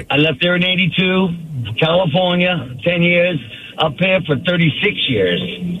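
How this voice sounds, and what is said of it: Strong Boston accent. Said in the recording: “I hear your accent... I'm from Boston originally... And that accent is still there, brother. It has gone nowhere.”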